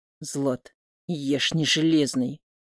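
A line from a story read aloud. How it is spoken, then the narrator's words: Hissed exhale. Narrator (Russian): Шипением выдыхаю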